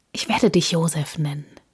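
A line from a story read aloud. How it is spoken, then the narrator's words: Whispered into ear. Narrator (German): wisperte er ihm ins Ohr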